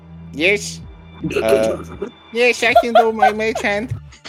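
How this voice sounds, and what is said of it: Comedic put-on German accent. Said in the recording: “is something stuck in your throat? You sound a bit... Why do you sound like a comedic Nazi?”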